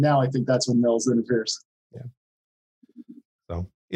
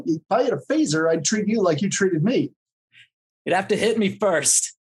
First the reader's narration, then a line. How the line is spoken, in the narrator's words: Kendall will point and yell, and she'll say